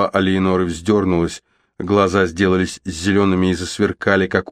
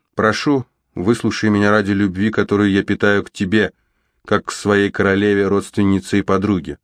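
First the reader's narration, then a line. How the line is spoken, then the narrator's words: Calm. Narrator (Russian): спокойно сказала графиня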